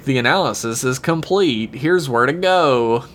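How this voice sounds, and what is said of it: Imitates a computer voice. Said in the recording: “did you do the voice of the computer? ... Yeah, I did. ... It sounded so good.”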